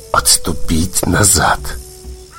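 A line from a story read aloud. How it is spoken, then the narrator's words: Raven's whisper through clenched teeth. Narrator (Ukrainian): Крізь заціплені зуби чорний ворон прошепотів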